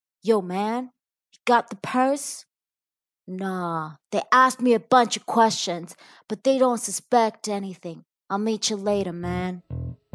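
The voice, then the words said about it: Put-on tough criminal voice. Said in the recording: “my impression of a criminal”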